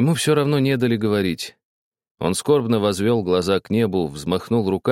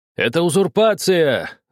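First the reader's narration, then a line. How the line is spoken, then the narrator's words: Desperate shout. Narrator (Russian): закричал отчаянным голосом Рачинский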